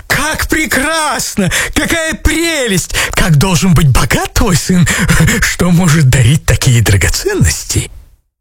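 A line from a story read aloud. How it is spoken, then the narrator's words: Amazed exclamation. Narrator (Russian): вне себя от изумления они воскликнули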